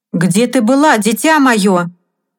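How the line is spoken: Stern question. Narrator (Russian): строго спросил мистер Оттис

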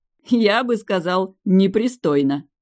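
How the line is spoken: Blurted, then guffawing. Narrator (Russian): выдал Кристофер и захохотал

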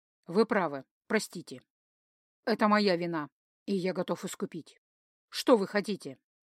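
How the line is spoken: Dry formal tone. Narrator (Russian): опять официально сухим тоном

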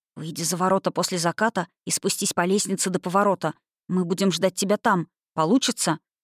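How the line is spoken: Whispered. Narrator (Russian): шепнул

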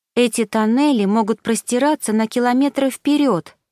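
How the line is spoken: Exclaiming. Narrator (Russian): воскликнула

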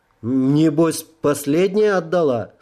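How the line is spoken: Stern question. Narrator (Russian): строго спросил я Марджан

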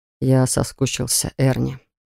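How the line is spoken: Quiet, close to ear. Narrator (Russian): тихо сказал он мне на самое ухо

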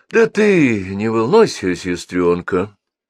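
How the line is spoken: Soothing tone. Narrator (Russian): успокаивающим тоном сказал

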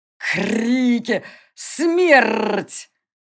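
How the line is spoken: Growl. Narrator (Russian): рыкнул он

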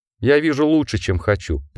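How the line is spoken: Sad wolf. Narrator (Russian): печально добавил волк

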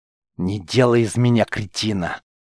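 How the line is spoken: Mercenary's hiss. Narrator (Russian): прошипел наемник

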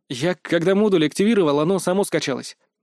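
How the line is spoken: Snort. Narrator (Russian): фыркнул я

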